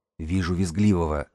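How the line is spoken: Whisper into speaker. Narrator (Russian): снова зашептал Васка в динамик

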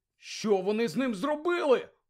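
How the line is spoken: Indignant exclamation. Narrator (Ukrainian): обурено вигукнув Седрик

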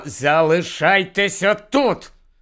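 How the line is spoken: Angry commanding tone. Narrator (Ukrainian): сердито повторив наказовим тоном Гаррі

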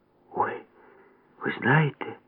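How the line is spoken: Whispering. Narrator (Ukrainian): зашепотіла Валька

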